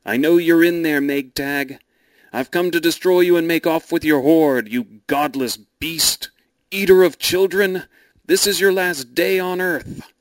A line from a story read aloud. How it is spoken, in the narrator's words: he cried out